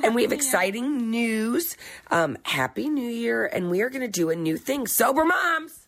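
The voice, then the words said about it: Hoarse voice from a cold. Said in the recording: “Excuse my voice today. I've had a frog in my throat. I have that horrible cold.”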